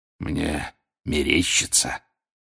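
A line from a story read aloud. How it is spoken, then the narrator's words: Wheezed again. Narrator (Russian): вновь захрипел Грюм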